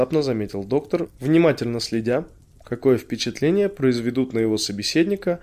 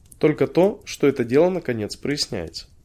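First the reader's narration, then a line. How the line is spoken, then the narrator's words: Calm reply. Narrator (Russian): спокойно ответил доктор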